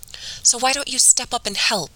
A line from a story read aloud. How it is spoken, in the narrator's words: Mom replied, her voice shrill with emotion